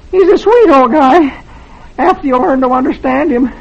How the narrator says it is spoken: says weakly

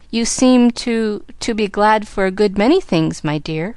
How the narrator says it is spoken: faltered Aunt Polly, putting her hand to her throat as if her collar bound

